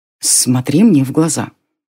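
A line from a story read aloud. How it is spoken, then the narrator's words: Boy's smiling whisper. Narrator (Russian): улыбаясь, отшептался мальчишка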